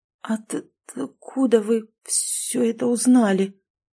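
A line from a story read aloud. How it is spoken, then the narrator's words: Stammering woman. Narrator (Russian): заикаясь, спросила женщина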